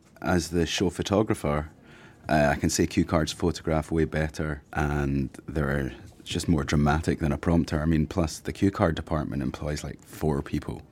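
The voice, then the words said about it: Scottish accent. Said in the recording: “I'm from Scotland. ... No, it's Scottish.”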